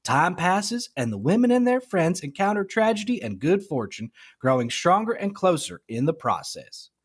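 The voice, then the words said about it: Put-on Southern US accent. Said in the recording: “That was a great Southern accent.”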